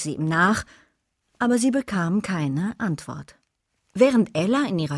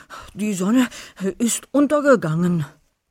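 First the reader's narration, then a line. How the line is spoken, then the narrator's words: Gasping. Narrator (German): keuchte Wolfi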